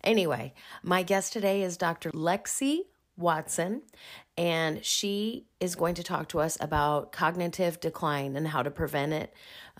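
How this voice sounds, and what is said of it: Slightly rough voice. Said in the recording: “I sound a little rough, but I'm just bouncing back from having strep throat”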